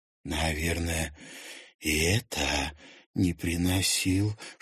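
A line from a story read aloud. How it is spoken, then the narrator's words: Whispered question. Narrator (Russian): шепотом спросила Луиза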